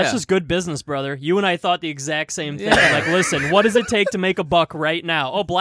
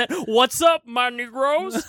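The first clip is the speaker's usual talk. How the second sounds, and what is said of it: Put-on Black American accent. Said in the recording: “Black accent.”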